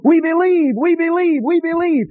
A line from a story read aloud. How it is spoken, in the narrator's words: went crazy, went wild and screaming